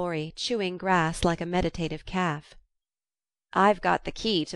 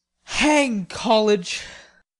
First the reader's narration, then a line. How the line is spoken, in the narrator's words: muttered Laurie with an impatient sigh